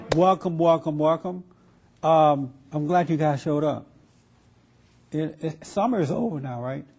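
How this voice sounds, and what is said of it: Weak voice. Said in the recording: “My voice is still weak. I feel my voice being weak. ... I was sick over this past week”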